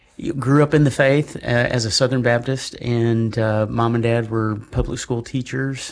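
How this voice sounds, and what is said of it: Slight Southern drawl. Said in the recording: “I'm originally from Arkansas, so if you hear a hint of an accent, I can get one in that Moonlight Magnolia drawl going on”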